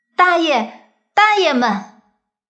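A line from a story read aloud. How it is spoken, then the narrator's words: Tearful grateful child. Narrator (Chinese): 感激的泪水分挂在小脸上，不知道说什么好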